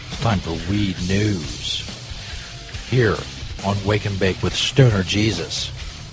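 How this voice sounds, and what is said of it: Deep radio announcer voice. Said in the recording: “my deep announcer voice”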